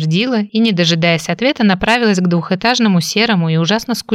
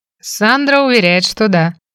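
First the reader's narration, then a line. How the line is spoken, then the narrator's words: Snort. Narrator (Russian): хмыкнул Фрэнк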